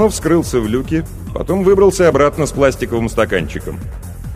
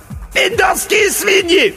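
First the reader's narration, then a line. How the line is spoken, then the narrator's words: General's shrill squeal. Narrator (Russian): взвизгнул бригадный генерал Хухуев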